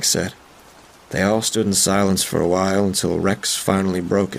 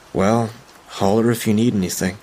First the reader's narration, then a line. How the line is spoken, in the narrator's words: Rex sighed